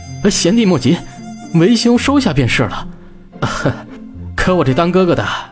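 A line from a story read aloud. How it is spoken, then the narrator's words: Laughing. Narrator (Chinese): 笑着说道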